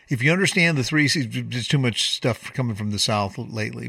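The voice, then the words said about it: Southern drawl. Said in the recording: “sorry for the Southern drawl.”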